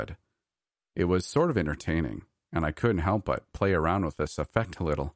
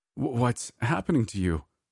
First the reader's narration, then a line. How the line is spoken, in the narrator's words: I stammered, unsure of what to do